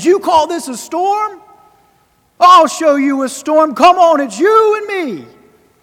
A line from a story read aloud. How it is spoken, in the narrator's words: he screams upward at the heavens